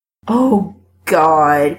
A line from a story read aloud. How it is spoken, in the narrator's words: moans